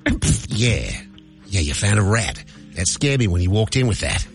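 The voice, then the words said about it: Put-on Australian accent. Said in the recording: “And Australian accent is what we're going for here”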